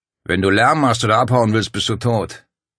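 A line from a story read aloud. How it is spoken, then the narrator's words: Deep voice. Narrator (German): der mit der tieferen Stimme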